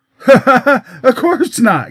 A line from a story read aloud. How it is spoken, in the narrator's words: giggled the victim of this pleasant irony